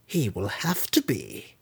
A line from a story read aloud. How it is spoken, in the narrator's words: Malice muttered